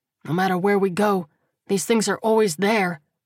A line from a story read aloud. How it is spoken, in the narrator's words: he thought bitterly